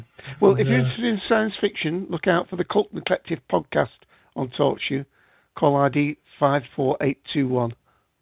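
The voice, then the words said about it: Northern English Manchester accent. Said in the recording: “I'm in Manchester, as I guess you can tell. ... Sound more north.”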